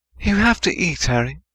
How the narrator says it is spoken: Hermione said quietly

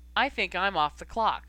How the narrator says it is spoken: she said evenly

